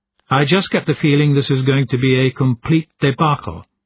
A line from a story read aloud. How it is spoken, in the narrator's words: the drone said